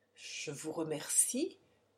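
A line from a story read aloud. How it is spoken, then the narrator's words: Faltering voice. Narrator (French): dit Quinn d'une voix défaillante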